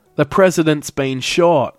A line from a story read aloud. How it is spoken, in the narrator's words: onlookers yelled back